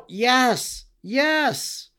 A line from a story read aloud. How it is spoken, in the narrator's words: they all cried out